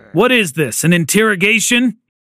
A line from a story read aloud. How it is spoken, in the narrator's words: He snapped